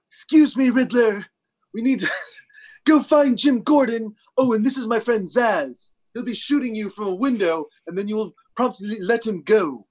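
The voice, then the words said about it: Imitates a TV character's voice. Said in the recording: “What is that voice? I don't think that was Penguin”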